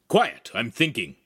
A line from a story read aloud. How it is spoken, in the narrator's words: Agostino barked